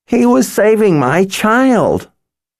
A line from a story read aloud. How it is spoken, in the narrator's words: cried Jamila